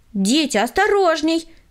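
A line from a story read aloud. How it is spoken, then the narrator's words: Shouted warning. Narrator (Russian): крикнула им Таисия Михайловна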